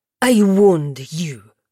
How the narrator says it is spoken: the historian spat

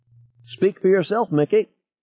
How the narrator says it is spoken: Ted squeaked

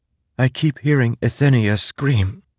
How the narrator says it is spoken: whispered

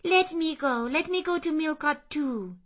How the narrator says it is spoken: she cried

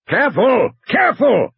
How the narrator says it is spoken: Hammond shouted

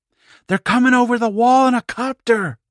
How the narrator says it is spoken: Don Karpinski shrieked

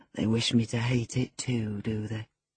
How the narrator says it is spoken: smiled grimly and observed

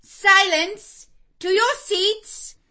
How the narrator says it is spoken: Miss Miller cried

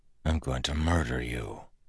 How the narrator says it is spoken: Kelsier said softly

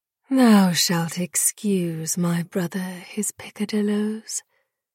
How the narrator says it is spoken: sighed

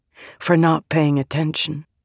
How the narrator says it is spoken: Vale whispered

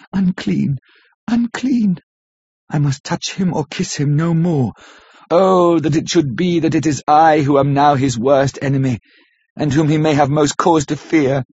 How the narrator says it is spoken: with a low wail and whispered, amidst choking sobs

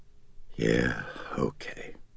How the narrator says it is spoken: Chris said softly

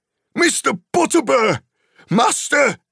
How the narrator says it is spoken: he shouted

